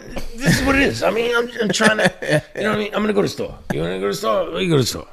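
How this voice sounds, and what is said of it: Higher-pitched old Italian man voice. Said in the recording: “his voice was higher pitched when he was in regular conversation ... he almost sounded like an old Italian dude in, like, the way that he talks”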